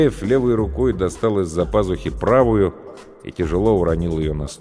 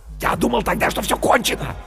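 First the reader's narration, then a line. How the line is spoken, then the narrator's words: Fervent whisper. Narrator (Russian): горячо зашептал Бергман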